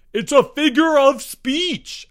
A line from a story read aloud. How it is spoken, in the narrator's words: Albert wailed